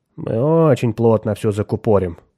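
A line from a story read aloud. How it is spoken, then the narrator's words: Satisfied mutter. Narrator (Russian): удовлетворенно пробормотал Кертис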